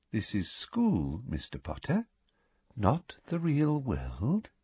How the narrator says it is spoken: she said softly

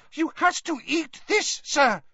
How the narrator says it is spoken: squeaked the elf

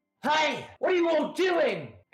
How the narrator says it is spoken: The one with the worn back cap is shouting

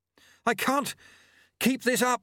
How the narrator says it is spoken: he panted, running after Lutse in the violet gloom

